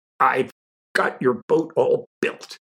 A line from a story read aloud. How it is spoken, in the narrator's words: he cried